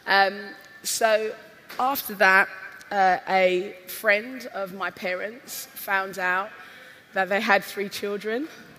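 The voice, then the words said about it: Husky voice. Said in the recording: “My voice is a little bit husky because part of my job this week is to shout at people a lot.”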